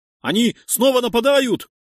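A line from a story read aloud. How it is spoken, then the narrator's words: Shouted, prisoner. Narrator (Russian): прокричал один из пленных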